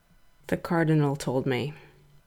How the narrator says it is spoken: he said, unable to raise his voice above a mutter

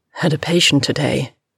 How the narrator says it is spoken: House rasped

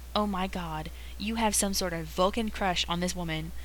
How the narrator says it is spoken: howls Jim, even more horrified than he was a second ago

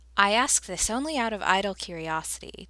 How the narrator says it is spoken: Taylor said dryly

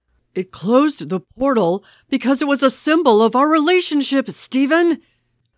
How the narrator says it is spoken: Bucky roared

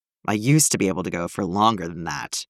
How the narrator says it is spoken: he said hoarsely

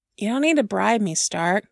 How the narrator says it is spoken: Steve sighed

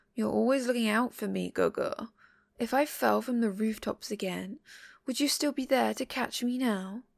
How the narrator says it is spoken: Xielian chuckles

